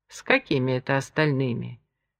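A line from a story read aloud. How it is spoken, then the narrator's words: Muttered. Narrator (Russian): буркнул Энрико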